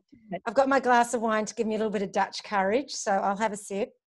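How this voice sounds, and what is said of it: Scottish accent. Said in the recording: “you obviously have an accent ... I was born in Glasgow in Scotland”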